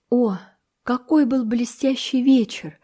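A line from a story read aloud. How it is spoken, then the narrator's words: Sighing. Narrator (Russian): вздохнула Энн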